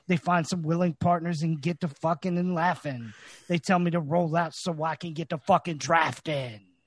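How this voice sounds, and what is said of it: Imitates another person's voice. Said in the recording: “good impersonation ... Tried to get that Tyler voice going ... That was perfect”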